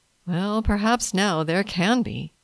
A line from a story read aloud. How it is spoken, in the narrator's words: Levi answered, with a weary sigh